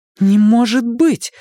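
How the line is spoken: Exclaimed. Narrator (Russian): воскликнула Беверли

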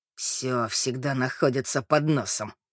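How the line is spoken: Grumble. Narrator (Russian): пробурчал мужчина

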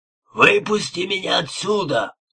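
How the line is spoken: Yelling. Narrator (Russian): вопил он

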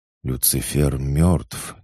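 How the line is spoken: Uncertain mutter. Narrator (Russian): неуверенно пробормотал Артем

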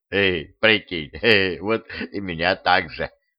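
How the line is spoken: Smirking grunt. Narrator (Russian): хмыкнул скелет

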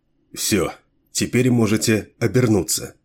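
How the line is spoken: Quiet voice. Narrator (Russian): негромко сказал он

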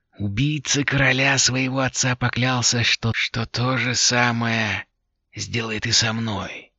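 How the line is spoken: Hoarse voice. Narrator (Russian): продолжала голова сиплым голосом

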